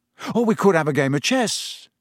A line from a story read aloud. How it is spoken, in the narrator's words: said hastily